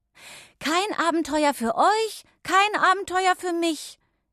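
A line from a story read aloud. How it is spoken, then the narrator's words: Calling after them. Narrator (German): rief Irma ihnen hinterher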